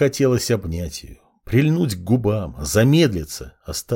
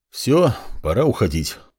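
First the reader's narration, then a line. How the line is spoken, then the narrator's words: Sighing. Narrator (Russian): вздохнул Андрей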